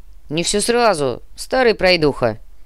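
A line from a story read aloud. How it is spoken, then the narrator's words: Gruff grumble. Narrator (Russian): Буркнул массажист, кряжистый брат Живус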